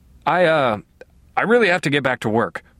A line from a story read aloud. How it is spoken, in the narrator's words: I stammered